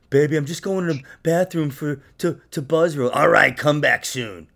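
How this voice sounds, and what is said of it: Imitates another person's voice. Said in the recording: “That was the impression of my. That's the impression of my ex... Who is she, Marge Simpson's sister?”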